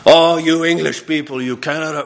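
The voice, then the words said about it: Bad put-on French accent. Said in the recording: “I'm sorry for the French accent, terrible”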